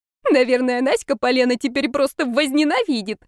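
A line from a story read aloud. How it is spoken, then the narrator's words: Hoarse laugh. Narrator (Russian): хрипло засмеялась Дарена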